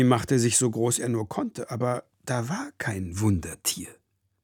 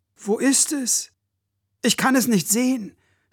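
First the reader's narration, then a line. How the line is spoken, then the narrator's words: Calling, starting to cry. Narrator (German): rief Toni und fing an zu weinen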